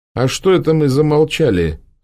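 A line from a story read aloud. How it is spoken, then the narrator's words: Stern question. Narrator (Russian): строго спросила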